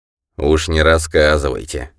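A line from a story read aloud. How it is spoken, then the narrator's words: Wry snort. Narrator (Russian): хмыкнул часовой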